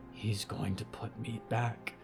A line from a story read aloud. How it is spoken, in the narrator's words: Percy whispered